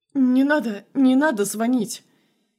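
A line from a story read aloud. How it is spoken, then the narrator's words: Frightened pleading. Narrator (Russian): Испуганно умоляет Алексей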